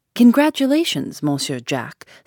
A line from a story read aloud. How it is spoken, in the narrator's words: said warmly